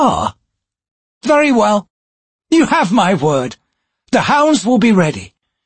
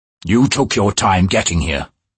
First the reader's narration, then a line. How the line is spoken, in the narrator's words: he growled